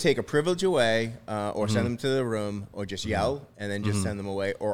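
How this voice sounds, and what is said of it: Usual voice. Nothing is said of it.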